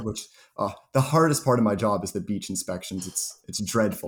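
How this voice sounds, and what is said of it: Sarcastic tone. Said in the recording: “you're being sarcastic ... I'm being sarcastic.”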